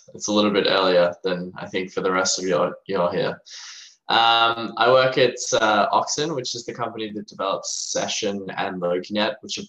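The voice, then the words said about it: Australian accent. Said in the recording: “I'm from Australia, as you can maybe hear in my accent.”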